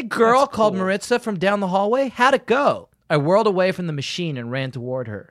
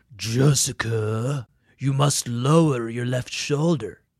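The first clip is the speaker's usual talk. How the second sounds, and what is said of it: Deepened, gravelly character voice. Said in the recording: “I imitated Mr. Brailsford's big grin and deepened my voice ... Like gravelly a little bit? ... I think you had the gravelly down”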